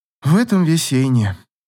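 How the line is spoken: Sad sigh. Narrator (Russian): грустно вздохнула Ив

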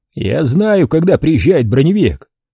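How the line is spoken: Yelling. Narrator (Russian): заорал Болон

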